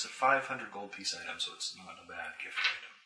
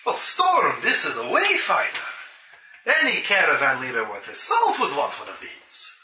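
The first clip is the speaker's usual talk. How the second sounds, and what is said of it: Put-on character accent. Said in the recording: “Let's see if I have his accent still.”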